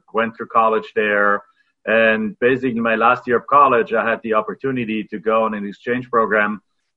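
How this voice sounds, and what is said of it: Foreign, non-American accent. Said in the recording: “everybody can probably hear by your accent that you haven't been in this country your entire life”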